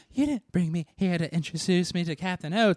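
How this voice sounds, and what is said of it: Breathy, babyish sexy girl voice. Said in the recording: “She does this weird, very Auntie Anna voice, which is like Jessica Rabbit meets a baby ... This is your sexy girl voice that you're doing right now? ... this sexy girl voice”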